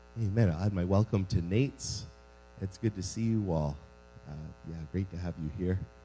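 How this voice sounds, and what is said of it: Slightly lower register voice. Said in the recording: “pardon my voice ... I'm a little bit getting over a bit of a cold, and so I've got that slightly lower register tone thing going on”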